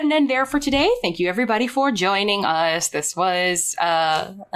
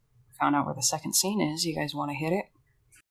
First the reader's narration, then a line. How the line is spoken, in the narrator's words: Mary Constance kind of sidles up to all of you and says very quietly